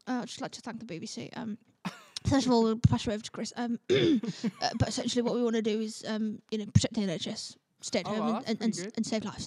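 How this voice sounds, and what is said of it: Boris Johnson impression. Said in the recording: “your best impression of somebody? ... That's Boris Johnson.”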